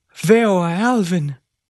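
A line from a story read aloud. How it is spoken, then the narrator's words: Exclaiming after a pause. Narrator (Spanish): Tras una pausa, Joseph padre exclamó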